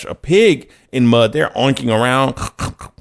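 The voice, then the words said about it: Imitates a pig oinking. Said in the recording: “my pig impersonation ... pardon my impersonation”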